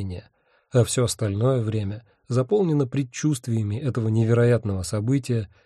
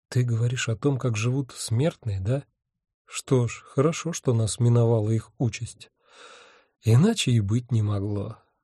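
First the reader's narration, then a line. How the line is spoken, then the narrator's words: Sighing. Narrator (Russian): вздохнул я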